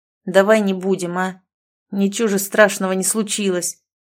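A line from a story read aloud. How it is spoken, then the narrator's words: Deep bass voice. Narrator (Russian): пробасил 17-летний ребенок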